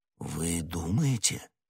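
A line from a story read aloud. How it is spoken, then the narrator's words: Uncertain. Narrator (Russian): неуверенно произнес Д'Артаньян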